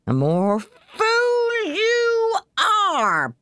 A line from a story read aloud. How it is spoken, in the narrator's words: bawled his mother